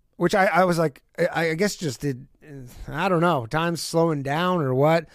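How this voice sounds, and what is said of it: Hoarse, strained voice. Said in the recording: “I'm losing my voice a little bit. You hear that?”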